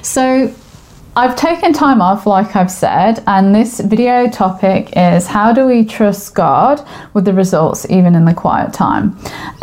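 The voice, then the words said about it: Mixed English and Australian accent. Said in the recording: “I am from England. I sound funny because I'm now living in Australia and the language and accents have mixed together.”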